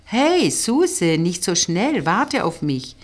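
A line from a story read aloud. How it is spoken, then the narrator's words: Called after her. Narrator (German): rief sie hinter ihr her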